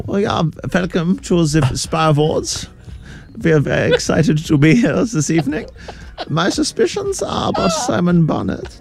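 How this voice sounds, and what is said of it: Put-on German accent. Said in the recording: “Did you do a German accent? You're great at accents.”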